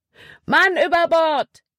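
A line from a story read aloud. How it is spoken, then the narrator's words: Calling out. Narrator (German): rief Caleb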